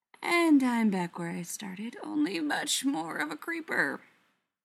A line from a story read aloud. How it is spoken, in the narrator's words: Spencer mutters